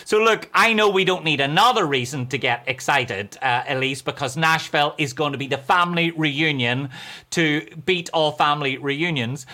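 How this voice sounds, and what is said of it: Irish accent. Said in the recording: “that's how we say cowboy in Ireland. We say cowboy. That's as that's as cleaned up as my accent gets.”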